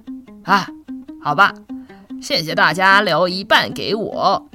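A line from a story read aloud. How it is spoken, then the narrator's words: Cheerful, smiling old woman. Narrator (Chinese): 奶奶的心情好了起来，她微笑地说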